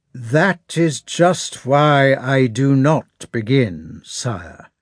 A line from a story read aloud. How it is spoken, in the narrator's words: said Kutuzov in a resounding voice, apparently to preclude the possibility of not being heard